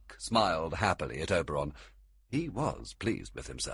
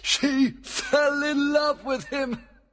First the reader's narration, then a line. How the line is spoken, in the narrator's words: cried Oberon with pleasure